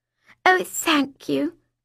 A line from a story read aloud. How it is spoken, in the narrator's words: I breathed